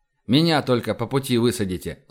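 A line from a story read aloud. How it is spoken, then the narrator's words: Plain. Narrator (Russian): сказал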